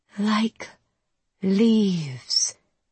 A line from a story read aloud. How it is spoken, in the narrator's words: she says in a velvet purr